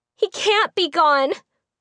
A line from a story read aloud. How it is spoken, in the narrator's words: Mimi cried